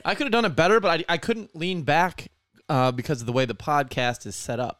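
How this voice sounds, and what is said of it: Rough, strained voice. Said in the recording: “My throat is on fire, but my I did not have my voice the last couple days, ... the remnants of me losing my voice”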